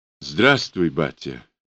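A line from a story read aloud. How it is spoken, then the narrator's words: Forced out, strained. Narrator (Russian): выдавил из себя Егор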